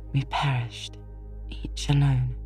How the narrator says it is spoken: she was murmuring to herself

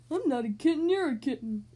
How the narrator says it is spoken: Killer whined

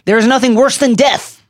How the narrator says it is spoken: Voldemort shouted at Dumbledore in the Ministry atrium as they dueled

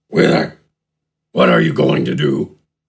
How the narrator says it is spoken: Gafgarn asked in a grumble

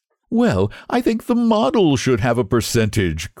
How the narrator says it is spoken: cried Huey, laughing

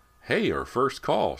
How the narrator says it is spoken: exclaimed

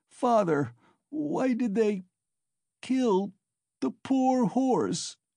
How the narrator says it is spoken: he sobbed, but his voice broke and the words came in shrieks from his panting chest

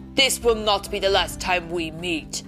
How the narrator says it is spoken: he snarled

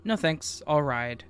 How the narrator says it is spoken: She calmly said

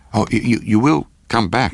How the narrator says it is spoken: gasped out

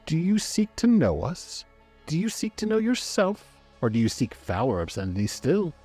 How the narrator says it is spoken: The voice was a sneer, a mockery

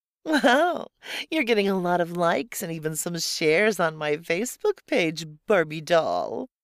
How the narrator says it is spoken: she giggled

